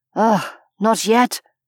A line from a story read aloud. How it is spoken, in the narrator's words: he muttered urgently